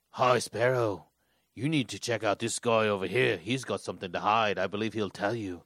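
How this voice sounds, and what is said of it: Weird imitation of a character's voice. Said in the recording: “most weird... amazing Littlefinger accent I've ever heard... No.”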